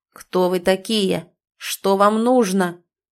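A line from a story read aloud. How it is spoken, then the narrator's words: Menacing booming bass. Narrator (Russian): тотчас прогремел грозный бас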